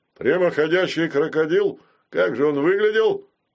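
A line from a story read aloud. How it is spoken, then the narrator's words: Mocking question. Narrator (Russian): насмешливо спросил полковник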